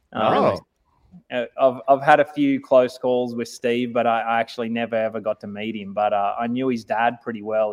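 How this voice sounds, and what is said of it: Australian accent. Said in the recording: “everyone is typing in their Australian accents tonight, so you've really inspired the nation here.”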